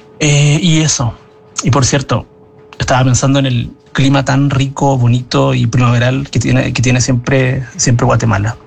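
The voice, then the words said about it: Chilean Spanish accent. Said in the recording (Spanish): “qué acento más lindo el que tiene Chile”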